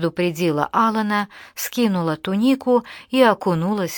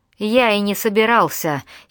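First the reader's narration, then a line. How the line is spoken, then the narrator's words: Giggle. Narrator (Russian): хихикнул Джон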